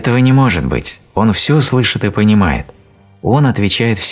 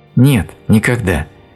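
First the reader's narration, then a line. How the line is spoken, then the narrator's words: Sad, slightly angry. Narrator (Russian): печально и чуть сердито сказала Элиза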